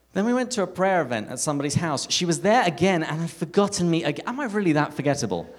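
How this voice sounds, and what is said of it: English accent. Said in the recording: “I love your accent. Is that Australian?" It's like, "No, my name's ... I'm from England.”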